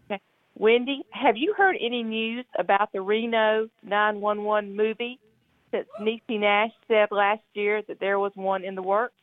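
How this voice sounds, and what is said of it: Noticeable regional accent. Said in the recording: “I like your accent already.”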